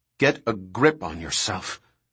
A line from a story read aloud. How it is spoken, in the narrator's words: Harding said coldly